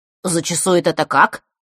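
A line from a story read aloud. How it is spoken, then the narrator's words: Businesslike question. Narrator (Russian): деловито спросил Саша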